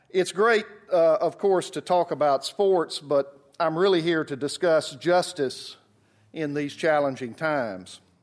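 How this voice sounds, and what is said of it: Southern US (Alabama) accent. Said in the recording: “As you can tell from my accent, I'm from the South. I'm particularly from Birmingham, Alabama.”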